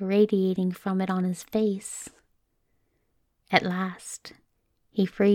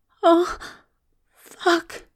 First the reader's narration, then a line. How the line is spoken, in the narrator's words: Aziraphale groans